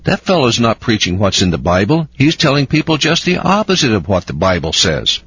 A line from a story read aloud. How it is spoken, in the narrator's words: they exclaimed in surprise